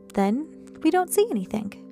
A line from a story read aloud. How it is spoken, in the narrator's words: she replied brightly